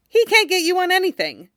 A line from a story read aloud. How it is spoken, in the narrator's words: Ron said brightly